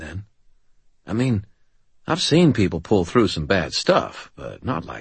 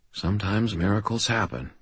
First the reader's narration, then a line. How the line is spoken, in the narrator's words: I said quietly